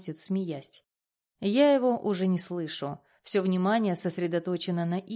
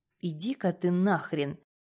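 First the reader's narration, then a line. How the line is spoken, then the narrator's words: Irritated retort. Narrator (Russian): Бросаю раздраженно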